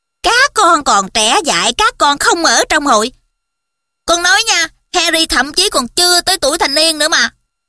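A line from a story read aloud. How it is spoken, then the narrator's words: Shrill mimicking voice. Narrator (Vietnamese): Nhái cái giọng cao the thé giống giọng của bà Weasley một cách kỳ lạ, Fred nói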